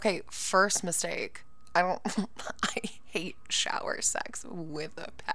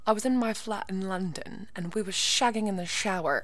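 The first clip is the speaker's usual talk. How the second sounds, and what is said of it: Amateur put-on British accent. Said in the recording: “I'm gonna try and do it in my best British accent. Am I guaranteeing it'll be good? Absolutely fucking not ... it'll probably be very insulting to any British person”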